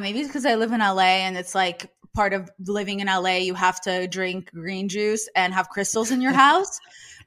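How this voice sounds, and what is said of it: Speaks with an accent. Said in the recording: “It's my accent.”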